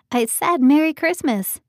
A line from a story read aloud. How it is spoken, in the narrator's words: called out